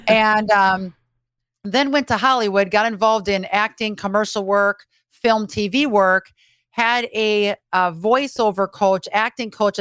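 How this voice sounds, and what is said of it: Upper Midwest Fargo-style accent. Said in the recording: “lose that Fargo hick accent ... and I still got it ... my hick accent”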